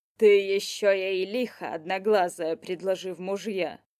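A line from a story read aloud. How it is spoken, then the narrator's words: Grumbling. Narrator (Russian): проворчал Горыныч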